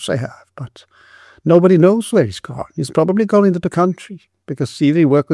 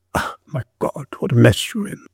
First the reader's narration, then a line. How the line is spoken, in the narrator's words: the constable muttered